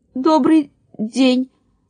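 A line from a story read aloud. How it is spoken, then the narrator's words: Stuttering. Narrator (Russian): сказал Мурашка, заикаясь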